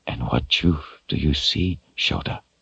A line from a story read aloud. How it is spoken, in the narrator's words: He whispered